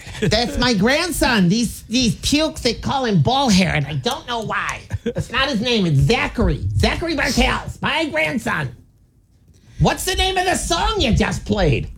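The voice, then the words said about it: Imitation of an elderly grandmother's voice. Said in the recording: “Is that a good impression of your grandma? ... Not even close. ... it sounded pretty good to her. ... Nailed it.”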